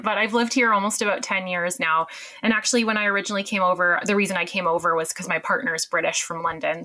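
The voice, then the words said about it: Canadian accent. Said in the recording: “I'm Canadian, as you can tell from the accent”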